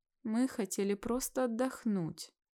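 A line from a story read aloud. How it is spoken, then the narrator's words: Moaning. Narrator (Russian): Простонала Кира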